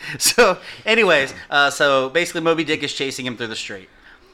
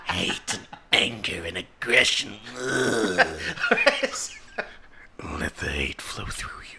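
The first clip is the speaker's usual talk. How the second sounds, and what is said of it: Impression of Emperor Palpatine's voice. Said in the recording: “that's my Emperor impression. ... Goddamn Palpatine.”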